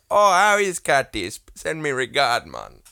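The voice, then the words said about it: Put-on Caribbean accent. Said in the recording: “a like a piss take Caribbean accent ... my accent's not great, but that's how he sounds.”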